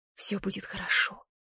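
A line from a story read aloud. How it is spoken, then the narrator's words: Doubtful whisper. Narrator (Russian): прошептала я, хотя сама в это не верила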